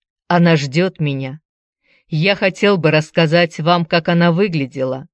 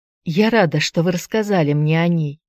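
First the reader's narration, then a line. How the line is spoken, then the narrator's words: Quiet reply. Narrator (Russian): негромко отозвалась Аня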